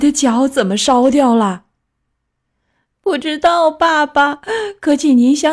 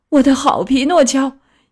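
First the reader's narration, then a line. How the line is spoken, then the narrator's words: Weeping. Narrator (Chinese): 大滴大滴的眼泪流下腮帮，哭着说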